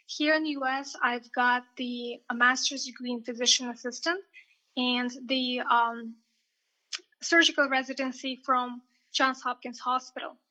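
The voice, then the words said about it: Russian accent. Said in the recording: “Originally, I'm from Russia, so I'm sure you can hear my accent.”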